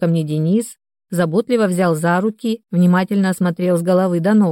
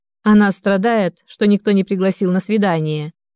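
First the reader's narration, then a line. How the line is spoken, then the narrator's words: Snide. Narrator (Russian): ехидно договорил зоомаг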